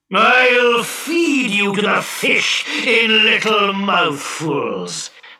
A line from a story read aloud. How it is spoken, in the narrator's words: bellowed the genie